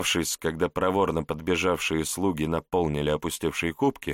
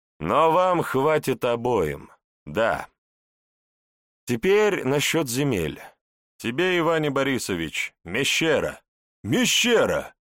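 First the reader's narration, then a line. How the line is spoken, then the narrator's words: Joyful exclamation. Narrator (Russian): Радостно воскликнул нижегородский князь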